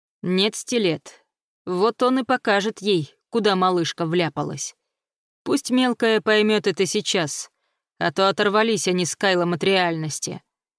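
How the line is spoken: Calm reply. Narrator (Russian): мастер спокойно ответил

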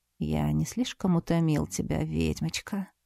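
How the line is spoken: Muffled, face buried. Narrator (Russian): Голос Барса звучал глухо, ведь в этот самый момент он зарылся лицом в ложбинку на моей груди

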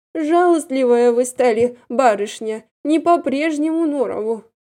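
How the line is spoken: Sighing. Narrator (Russian): тоже вздохнула Павловна

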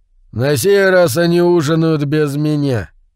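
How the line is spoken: Grumbled. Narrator (Russian): пробурчал Имару

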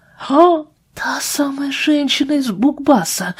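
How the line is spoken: Whispered. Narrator (Russian): прошептала Джулия

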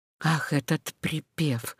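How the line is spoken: Whisper. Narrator (Russian): прошептал Пьер

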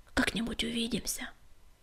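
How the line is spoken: Whisper. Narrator (Russian): шепнул Крутобок

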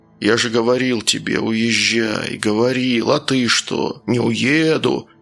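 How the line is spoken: Grim. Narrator (Russian): Майор мрачно молчал, а потом сказал

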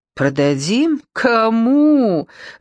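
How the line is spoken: Cheerful laugh. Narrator (Russian): рассмеялась и даже довольно весело

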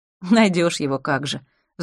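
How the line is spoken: Sighing. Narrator (Russian): вздохнула Янина

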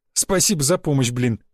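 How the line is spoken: Laughing. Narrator (Russian): засмеялся я

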